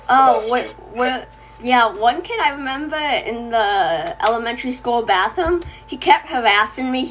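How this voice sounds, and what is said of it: Boston accent. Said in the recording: “I can hear the Boston accent.”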